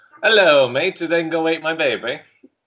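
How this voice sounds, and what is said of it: Bad put-on Australian accent. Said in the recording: “he had an Australian accent, but it was like me trying to do an Australian accent ... That's what he pretty much sounded like.”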